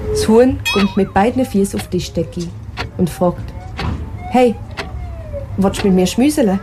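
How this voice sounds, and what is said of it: Swiss German dialect. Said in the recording (German): “auf Schweizerdeutsch”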